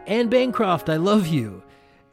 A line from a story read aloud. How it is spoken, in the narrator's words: he yells out